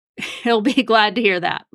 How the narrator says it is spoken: Webb laughed

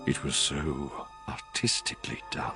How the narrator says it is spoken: whispered

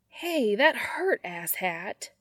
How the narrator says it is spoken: Sam whines

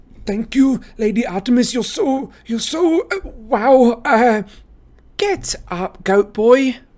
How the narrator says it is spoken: Talia snapped

